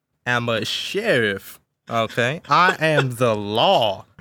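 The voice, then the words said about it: Put-on Texan Southern accent. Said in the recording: “a Southern accent, like "Howdy, partner," ... Specifically like Texas. South. ... doing a Texan accent?”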